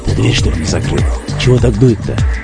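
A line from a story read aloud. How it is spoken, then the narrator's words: Whispered question. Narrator (Russian): шепотом спросил Мечников своего слугу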